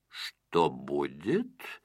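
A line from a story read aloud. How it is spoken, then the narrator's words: Mutter. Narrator (Russian): пробормотал господин Крабс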